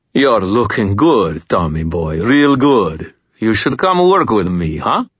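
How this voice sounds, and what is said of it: Thick Greek accent. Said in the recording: “His voice had a thick accent, definitely Greek.”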